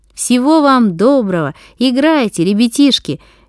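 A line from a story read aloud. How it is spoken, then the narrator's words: Cheerful shout. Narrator (Russian): весело крикнул шофер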